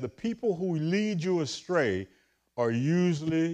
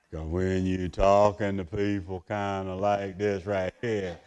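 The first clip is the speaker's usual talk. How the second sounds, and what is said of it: Slow Southern drawl. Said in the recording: “southern accent ... it just takes you so long to get to what they are talking about”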